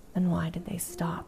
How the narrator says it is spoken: he countered

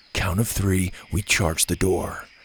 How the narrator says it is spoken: Gavin said calmly

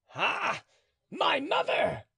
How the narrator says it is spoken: cried Mordaunt, with eyes on fire, with a look of hate impossible to paint

